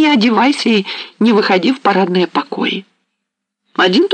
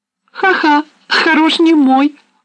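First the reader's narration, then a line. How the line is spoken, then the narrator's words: Laughing. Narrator (Russian): засмеялась Саня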